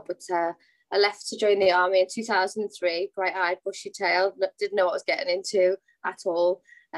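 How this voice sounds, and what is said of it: Soft Liverpool accent. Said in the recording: “born and bred Liverpool ... my accent's quite soft now”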